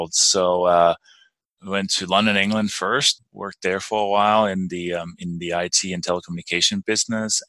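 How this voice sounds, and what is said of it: Danish accent in English. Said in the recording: “That's not quite a Colorado accent I'm detecting ... My name and accent. I was born and raised in Denmark”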